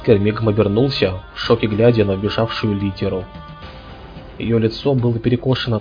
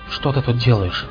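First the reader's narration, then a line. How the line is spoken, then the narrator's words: Whisper. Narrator (Russian): прошептал он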